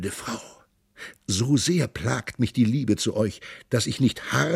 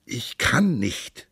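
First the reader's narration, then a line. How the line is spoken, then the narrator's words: Groaning. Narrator (German): stöhnte sie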